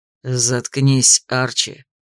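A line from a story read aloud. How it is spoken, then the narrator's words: Angry, through gritted teeth. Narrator (Russian): Сквозь зубы гневно процедил лорд Дарвик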